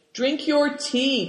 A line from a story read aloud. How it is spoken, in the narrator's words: cried Moonlight